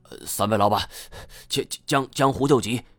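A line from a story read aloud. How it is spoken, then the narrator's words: Panting. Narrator (Chinese): 段和风气喘吁吁地说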